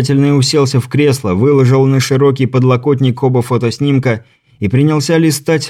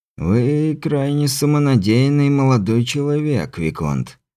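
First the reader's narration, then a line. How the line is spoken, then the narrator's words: Muttered under breath. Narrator (Russian): бормотал он между делом себе под нос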